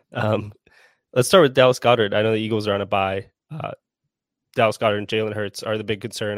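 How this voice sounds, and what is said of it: Sick, congested-sounding voice. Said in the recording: “Apologize for the voice. I'm fighting off a cold”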